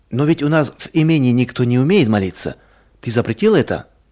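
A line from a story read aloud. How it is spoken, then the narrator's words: Plain. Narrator (Russian): сказала жена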